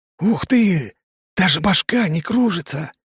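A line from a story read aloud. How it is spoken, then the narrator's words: Joyful ringing whisper. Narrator (Russian): сообщает он радостным звенящим шепотом на общеземном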